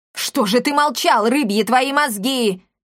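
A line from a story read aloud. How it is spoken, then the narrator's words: Yelling. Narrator (Russian): завопил господин Амброзиус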